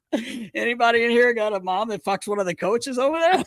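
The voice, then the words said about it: Put-on Charlestown accent. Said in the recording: “You know, that accent ... That was a good accent too ... you could have blended right into Charlestown”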